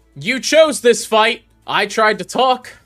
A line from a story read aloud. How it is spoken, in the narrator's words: Sox yells down from the top deck